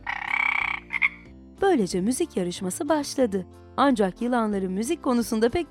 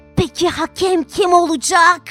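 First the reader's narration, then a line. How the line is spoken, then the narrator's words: Hissed. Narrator (Turkish): diye tısladı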